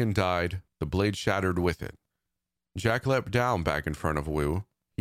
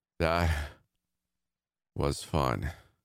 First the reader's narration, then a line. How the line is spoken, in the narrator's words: he muttered, slowly drifting off into the darkness